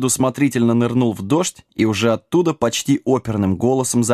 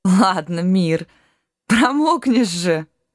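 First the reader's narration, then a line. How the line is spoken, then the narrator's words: Laughing heartily. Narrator (Russian): Расхохоталась дочь рыцаря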